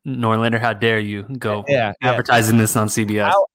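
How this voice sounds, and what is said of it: Imitates another person's voice. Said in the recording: “Here's my quick GP impersonation.”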